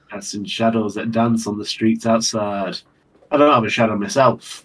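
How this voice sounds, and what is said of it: British accent. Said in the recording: “He's channeling the old British accent. See, now he's actually sounding British.”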